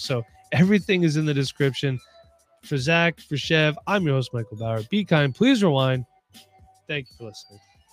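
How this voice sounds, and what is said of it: Strained, unwell-sounding voice. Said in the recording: “my voice is still struggling. Been going on day 8 of not feeling well”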